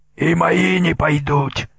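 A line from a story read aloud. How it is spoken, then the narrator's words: Hoarse wheeze. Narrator (Russian): прохрипел Митя Бритоус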